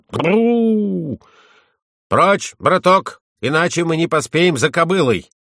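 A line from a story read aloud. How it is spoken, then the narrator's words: Shout. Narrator (Russian): крикнул Юсси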